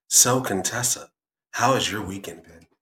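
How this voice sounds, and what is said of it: Smooth radio announcer voice. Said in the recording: “go into my full radio voice ... You gotta have like a smooth bravado about yourself when you're talking”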